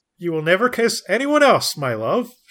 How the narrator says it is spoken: she says happily

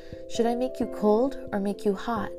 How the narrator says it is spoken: I shouted

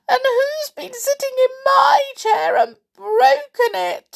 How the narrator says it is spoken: squeaked Little Bear sadly

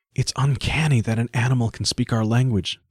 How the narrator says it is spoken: breathed Nanette

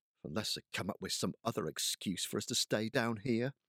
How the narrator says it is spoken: Gabe muttered

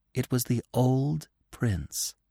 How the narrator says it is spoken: Feline said solemnly

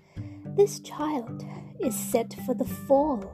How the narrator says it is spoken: gasped

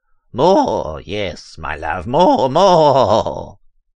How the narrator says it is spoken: he cried over the roaring thunder

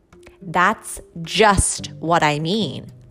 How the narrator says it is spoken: said his mother

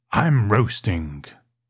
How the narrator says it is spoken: growled Mr

